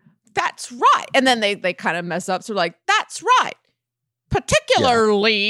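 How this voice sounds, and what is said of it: Usual voice. Nothing is said of it.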